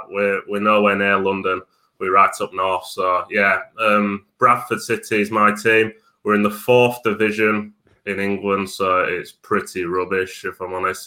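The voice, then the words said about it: Broad Yorkshire English accent. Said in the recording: “I'm from Bradford, so the broad accent. I'm a Yorkshireman.”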